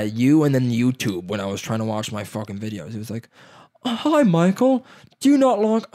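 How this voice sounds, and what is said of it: Usual voice. Nothing is said of it.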